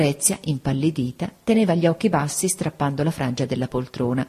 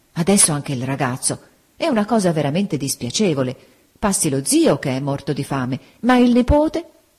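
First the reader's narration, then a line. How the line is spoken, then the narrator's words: Dismayed exclamation. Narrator (Italian): Don Mariano, con aria costernata, esclamò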